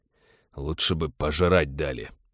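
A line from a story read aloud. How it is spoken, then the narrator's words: Grumbling. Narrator (Russian): проворчал Теодор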